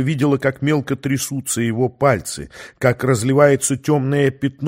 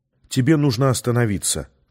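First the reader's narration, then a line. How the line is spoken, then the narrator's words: Soft plea. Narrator (Russian): попросила она его мягко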